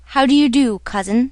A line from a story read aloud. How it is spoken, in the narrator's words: said Pierre